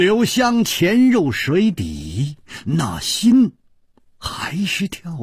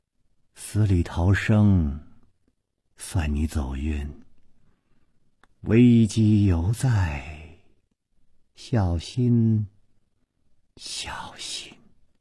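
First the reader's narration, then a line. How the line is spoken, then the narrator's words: Dazed murmur. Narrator (Chinese): 白衣美妇呆呆地出了半天神，喃喃地说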